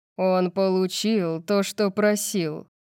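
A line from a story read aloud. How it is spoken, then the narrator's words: Growl. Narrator (Russian): прорычал Сет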